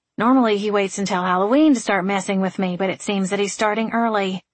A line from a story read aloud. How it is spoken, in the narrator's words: Frankie muttered